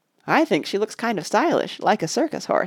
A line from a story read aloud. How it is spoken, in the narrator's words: said Mark